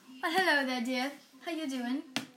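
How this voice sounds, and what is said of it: Put-on British accent. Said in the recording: “What about your British accent? ... she has beautiful accents ... give us a British accent.”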